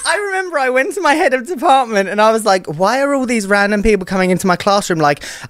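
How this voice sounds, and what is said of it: British English accent. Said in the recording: “your fancy British accent”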